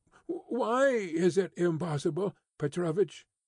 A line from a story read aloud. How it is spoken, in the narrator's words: he said, almost in the pleading voice of a child